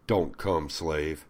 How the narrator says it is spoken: says in a commanding voice

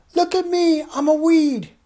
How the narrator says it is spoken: shouting

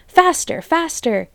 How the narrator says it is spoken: The fat Bogus was shouting

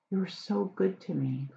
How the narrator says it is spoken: Curly sighed

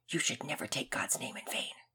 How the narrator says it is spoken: Finn whispered loudly

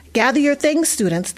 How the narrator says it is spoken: the bus driver called out cheerfully

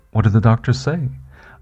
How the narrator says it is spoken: I nervously asked, half expecting a cancer diagnosis even before being examined

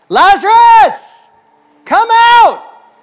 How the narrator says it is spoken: Jesus shouted

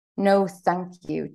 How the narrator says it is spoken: Teresa said in a clipped tone

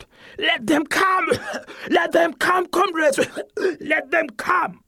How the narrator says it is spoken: in between coughing, wheezing, and panting, students still shout

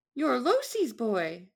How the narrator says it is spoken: she looked surprised for a moment, then exclaimed

